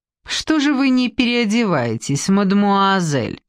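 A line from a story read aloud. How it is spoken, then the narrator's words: Mocking question. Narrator (Russian): насмешливо спросила Семилейская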